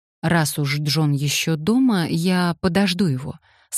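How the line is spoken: Plain. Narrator (Russian): сказал он

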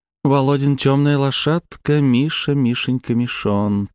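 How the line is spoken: Purring. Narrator (Russian): промурлыкала Паулина

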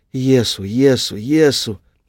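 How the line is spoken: Mother whimpering. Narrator (Russian): Мама хныкала

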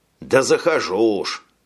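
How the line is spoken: Grumbled. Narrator (Russian): пробурчал Джек

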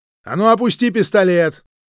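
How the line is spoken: Shout. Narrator (Russian): Так она крикнула

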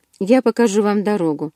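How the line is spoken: Calm. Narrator (Russian): спокойно сказал Карлайл

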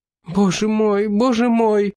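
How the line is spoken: Woman sobbing hysterically. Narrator (Russian): истерично разрыдалась одна из женщин

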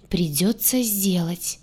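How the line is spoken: Groaning crocodile. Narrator (Russian): простонал крокодил

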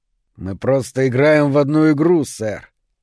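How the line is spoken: Through clenched teeth. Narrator (Russian): процедил тот сквозь стиснутые зубы

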